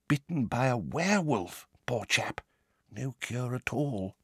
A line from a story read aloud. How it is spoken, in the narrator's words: he said, dropping his voice